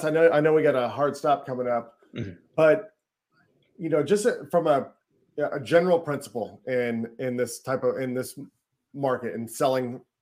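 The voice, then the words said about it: Rough, strained voice. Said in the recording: “my voice is all jacked up.”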